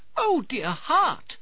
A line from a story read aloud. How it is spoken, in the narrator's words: she cried